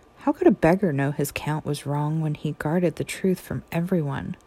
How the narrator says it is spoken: The beggar laughed

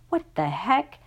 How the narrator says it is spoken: muttered

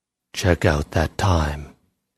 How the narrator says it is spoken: paused and said in a low voice

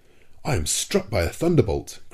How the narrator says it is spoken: cried, with an oath

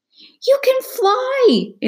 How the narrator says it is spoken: Izzy cried

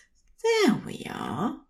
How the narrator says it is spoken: Zerophil says, pitching his voice soothing and warm

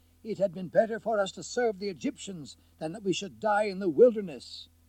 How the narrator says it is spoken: They cried

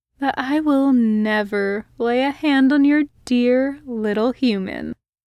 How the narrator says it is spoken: his brother purred

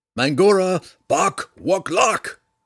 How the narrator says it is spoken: Drizzt yelled again

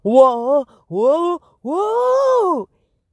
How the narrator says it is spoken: he shouted

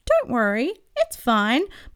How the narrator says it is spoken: Marvin squeaks, being nice

